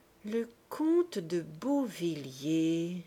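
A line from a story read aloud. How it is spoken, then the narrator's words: Slow, thinking aloud. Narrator (French): reprit-il lentement, réfléchissant tout haut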